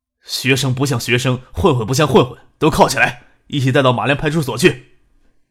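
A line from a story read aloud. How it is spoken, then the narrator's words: Stern scolding. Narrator (Chinese): 吴爱国翻脸不认人，厉声训斥道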